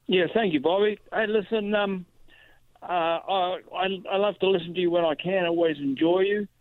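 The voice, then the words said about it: New Zealand accent. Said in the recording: “I sense from your accent you are not originally from these parts ... I originally grew up in New Zealand and lived a while in Australia”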